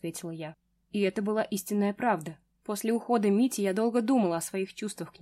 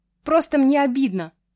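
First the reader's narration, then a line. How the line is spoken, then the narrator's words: Shout. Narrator (Russian): прокричала я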